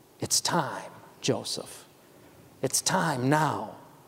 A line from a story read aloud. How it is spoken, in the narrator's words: she had whispered